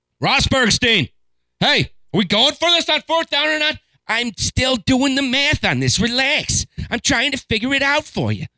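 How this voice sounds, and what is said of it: Imitates another person's voice. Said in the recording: “That was my Rosberg impression. I've never heard him talk, but one can imagine. That's what he sounds like, perhaps?”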